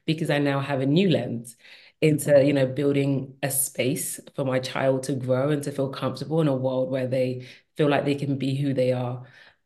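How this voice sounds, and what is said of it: British accent. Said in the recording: “I'm British. I just lived in the US. My accent apparently has never left me and will never leave me”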